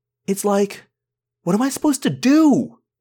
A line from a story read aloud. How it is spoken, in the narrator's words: I yelled